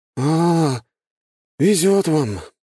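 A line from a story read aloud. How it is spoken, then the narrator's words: Gloomy with heavy sigh. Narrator (Russian): мрачно сказал он и тяжело вздохнул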